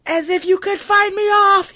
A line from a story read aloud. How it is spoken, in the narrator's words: he yells